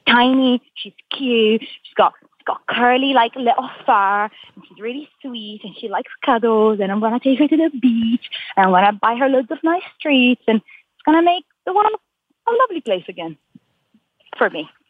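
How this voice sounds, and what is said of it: Excited speech with shifting mixed accent. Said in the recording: “when you get really excited about something, your accent switches between like four different accents ... now you're from Ireland. Oh, now you're from Italy. Oh, yeah, you sound like you might be from Morocco”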